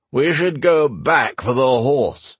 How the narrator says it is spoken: Gareth said loudly

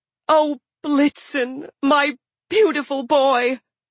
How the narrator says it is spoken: She cried red-gold tears

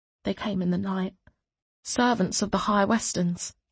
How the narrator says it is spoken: she whispered

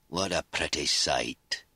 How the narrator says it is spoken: he said thickly

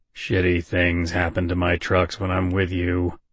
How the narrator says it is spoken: Bobby continued to grumble

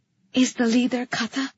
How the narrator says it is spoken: I breathed

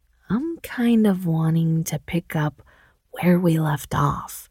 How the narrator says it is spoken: she whispered

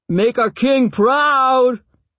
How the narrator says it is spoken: He shouts

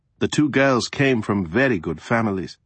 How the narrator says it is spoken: the regent said

